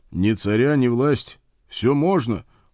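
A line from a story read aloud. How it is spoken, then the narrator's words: Cold rebuke. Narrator (Russian): холодно осадил его я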